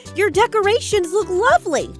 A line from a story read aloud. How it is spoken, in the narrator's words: Daisy exclaims